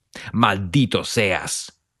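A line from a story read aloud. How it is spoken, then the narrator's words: Man bellowing. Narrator (Spanish): bramó otro hombre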